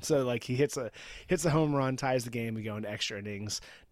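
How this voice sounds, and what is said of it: Husky, slightly hoarse voice. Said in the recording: “my voice is a little bit sexy today”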